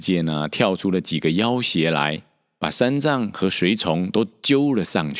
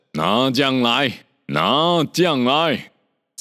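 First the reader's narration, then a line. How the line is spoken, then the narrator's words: Roaring. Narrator (Chinese): 有人吼叫着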